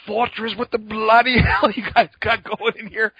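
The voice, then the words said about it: Angry imitated British-accented voice. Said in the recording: “steaming mad, spitting ... with his inimitable British accent.”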